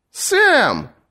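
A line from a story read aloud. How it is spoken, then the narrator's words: Exclamation. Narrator (Russian): воскликнул знакомый голос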